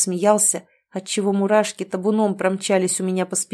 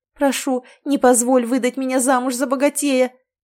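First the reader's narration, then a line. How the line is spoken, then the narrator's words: Desperate pleading. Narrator (Russian): взмолилась я, взывая к совести Ричарда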